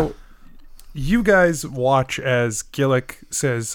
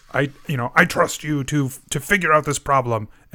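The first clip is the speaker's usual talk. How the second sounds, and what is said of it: Imitates a character's voice. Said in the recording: “a really good Gillick impression ... that was actually legitimately good”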